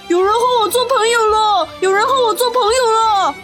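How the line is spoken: Joyful loud shout. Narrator (Chinese): 箭猪听了，真是高兴极了，他大声地喊道

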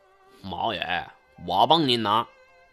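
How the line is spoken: Sinister voice. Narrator (Chinese): 胖子声音阴恻地说

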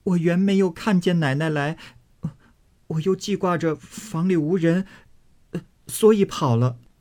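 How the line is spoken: Crying young girl. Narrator (Chinese): 小丫头子哭道

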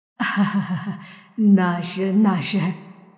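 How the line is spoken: Forced dry laugh. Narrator (Chinese): 老鬼只得跟着干笑

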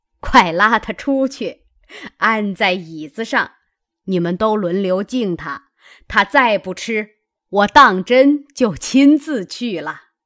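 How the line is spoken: Laughing command. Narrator (Chinese): 贾母笑着命尤氏

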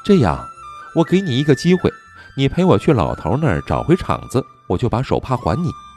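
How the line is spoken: Girl, smiling. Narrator (Chinese): 小姑娘眉眼含笑道

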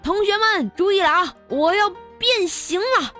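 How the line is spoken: Loud teacher's shout. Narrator (Chinese): 我们老师……大声喝道

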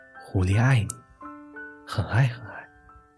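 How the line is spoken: Whisper. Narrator (Chinese): 小狐狸凑到熊的耳边轻声说道

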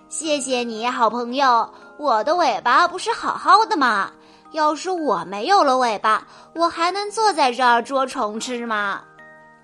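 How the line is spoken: Woodpecker, laughing. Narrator (Chinese): 啄木鸟 笑着说

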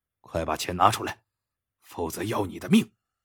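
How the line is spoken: Menacing low bark. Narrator (Chinese): 年轻人凶相毕露，低声喝道

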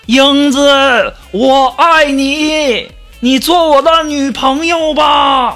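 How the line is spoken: Repeated shouting. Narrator (Chinese): 喊了好多遍呢

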